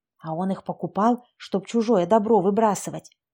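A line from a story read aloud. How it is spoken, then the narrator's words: Confiding whisper. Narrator (Russian): шепотом делилась с мужем Лизавета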